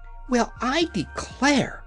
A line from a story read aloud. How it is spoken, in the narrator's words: gasped the yellow hen in amazement